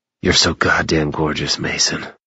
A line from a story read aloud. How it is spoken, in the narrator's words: growled huskily